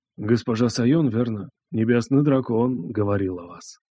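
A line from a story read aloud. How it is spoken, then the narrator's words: Old fiddler's low question. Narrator (Russian): старик-скрипач спросил вполголоса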